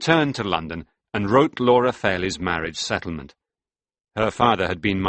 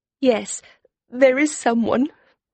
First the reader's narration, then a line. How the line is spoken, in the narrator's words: she said in a trembling voice, and she burst into tears